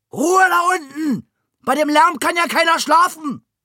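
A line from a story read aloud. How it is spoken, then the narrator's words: Old man bellowing. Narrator (German): der alte Meier brüllte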